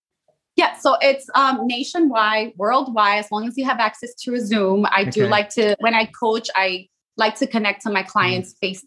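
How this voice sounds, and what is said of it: American accent. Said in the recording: “people will be able to glean from your accent that you're in the States”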